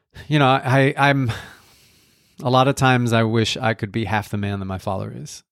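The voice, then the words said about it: Choked-up, emotional voice. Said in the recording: “I get a little choked up when I start talking about this”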